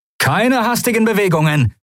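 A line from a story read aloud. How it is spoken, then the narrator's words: Calling out. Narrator (German): rief er den Weißmänteln zu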